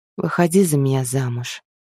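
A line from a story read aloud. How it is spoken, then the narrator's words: Quiet speech. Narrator (Russian): тихо сказал Мэл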